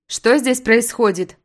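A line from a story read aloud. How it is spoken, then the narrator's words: Stern question. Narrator (Russian): строго спрашиваю я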